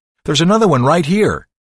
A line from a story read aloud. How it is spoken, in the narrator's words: someone on the opposite end of the line yelled